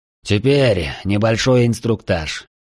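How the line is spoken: Deep sigh. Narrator (Russian): глубоко вздохнул Алекс Ордер

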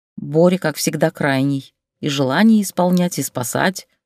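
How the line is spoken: Grumbling. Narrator (Russian): проворчала она

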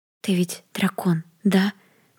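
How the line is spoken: Timid whisper. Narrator (Russian): прошептала Хелли, не осмеливаясь смотреть в лицо Белль, в ее пылающие драконьи глаза

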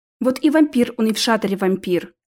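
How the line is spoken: Mildly irritated, reluctant reply. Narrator (Russian): слегка раздраженно ответила Алиса, явно не желая продолжать эту тему

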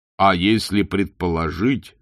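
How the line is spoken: Plain. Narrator (Russian): сказал он

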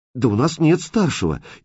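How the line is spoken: Frightened young teenager. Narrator (Russian): испуганно сказал мелкий, светлоголовый подросток

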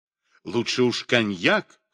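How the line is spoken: Laughing. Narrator (Russian): хохотал Клейст

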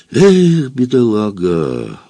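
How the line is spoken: Sighed. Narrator (Russian): вздохнул Франц

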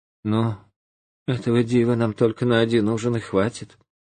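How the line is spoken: Sighing. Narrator (Russian): вздохнула и говорит

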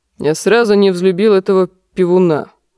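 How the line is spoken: Grumbling. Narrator (Russian): проворчал лорд Нестор

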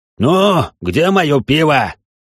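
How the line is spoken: Barked. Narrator (Russian): гаркнул он

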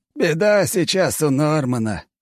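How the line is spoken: Old man's snort. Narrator (Russian): хмыкнул дед

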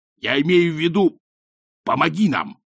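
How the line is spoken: Furious bark. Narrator (Russian): рявкнул напролом, подобно толстой и разгневанной Венере

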